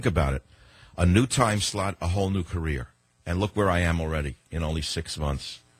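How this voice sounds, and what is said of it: Deep East Coast accent. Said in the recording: “the sound of your voice ... It's the deep accent. First, it's that fun, deep accent ... that East Coast accent”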